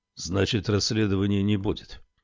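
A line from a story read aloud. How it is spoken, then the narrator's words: Gloomy question. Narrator (Russian): мрачно осведомился он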